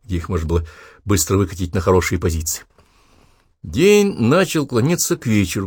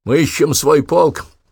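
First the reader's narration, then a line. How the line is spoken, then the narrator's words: Hoarse wheeze. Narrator (Russian): прохрипел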